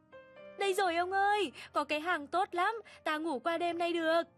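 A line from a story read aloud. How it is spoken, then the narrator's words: Sudden joyful cry. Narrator (Vietnamese): chợt reo lên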